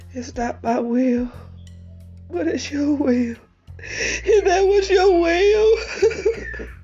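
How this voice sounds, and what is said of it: Emotional voice. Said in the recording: “being all emotional”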